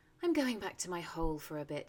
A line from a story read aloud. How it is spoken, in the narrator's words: he said to himself dreamily